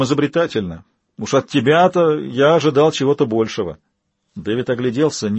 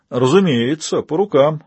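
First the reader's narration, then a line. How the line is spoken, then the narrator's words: Laughing. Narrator (Russian): рассмеялся голос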